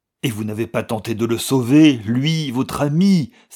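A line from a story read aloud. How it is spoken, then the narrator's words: Exclaimed. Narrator (French): s'écria Valentin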